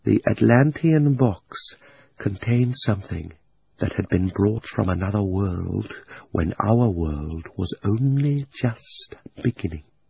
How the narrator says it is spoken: he leaned forward and almost whispered as he said

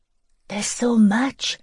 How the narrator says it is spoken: Lizzie breathed

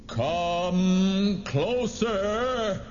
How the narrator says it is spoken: he roared

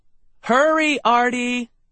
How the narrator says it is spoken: Mom shouted from downstairs

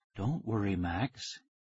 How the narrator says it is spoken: said softly

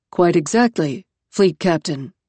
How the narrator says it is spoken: said 20 Cicada, faintly sepulchral through the intercom

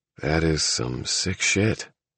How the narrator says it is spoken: Divine said wearily

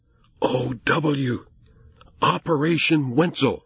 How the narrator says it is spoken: he added in a heavy whisper

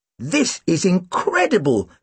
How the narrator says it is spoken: Tim exclaimed

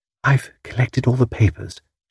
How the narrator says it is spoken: whispered

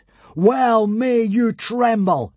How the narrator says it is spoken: bellowed Hiccup

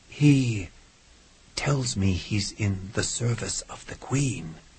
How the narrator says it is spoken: whispered Doyle

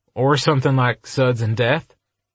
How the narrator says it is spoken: Adam laughed again

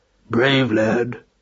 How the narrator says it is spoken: growled Roland softly

